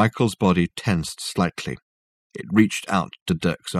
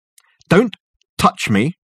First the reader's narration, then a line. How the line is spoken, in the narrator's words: snapped Dirk